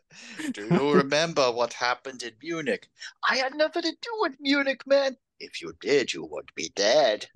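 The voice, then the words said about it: Absurd put-on European accent. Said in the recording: “He puts on this absurd European accent.”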